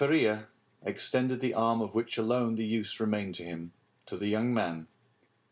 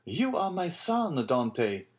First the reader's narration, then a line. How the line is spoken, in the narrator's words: exclaimed the old man